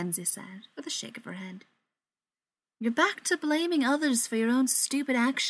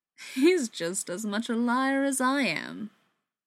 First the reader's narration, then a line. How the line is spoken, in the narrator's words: Beckett laughed